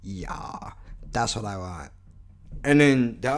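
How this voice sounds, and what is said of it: Usual voice. Nothing is said of it.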